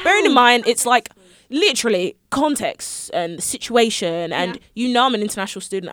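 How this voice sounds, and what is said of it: Noticeable foreign accent. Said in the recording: “You hear I have an accent.”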